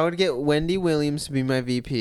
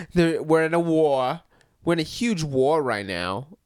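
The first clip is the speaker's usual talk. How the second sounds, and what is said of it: Old-timey 1920s Yankee kid voice. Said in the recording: “No, I was doing just 1920s. Labor kid. ... A 1920s Yankee.”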